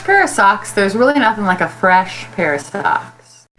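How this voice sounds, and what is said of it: Smooth public-radio announcer voice. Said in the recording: “You almost have an NPR voice.”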